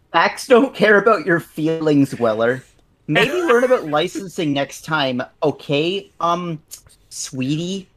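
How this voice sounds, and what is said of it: Uptight right-wing conservative pundit voice. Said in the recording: “that is my uptight right-wing conservative impression ... It's my Ben Shapiro impression”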